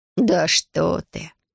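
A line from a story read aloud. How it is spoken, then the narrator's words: Old woman's light laugh. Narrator (Russian): Старушка легко рассмеялась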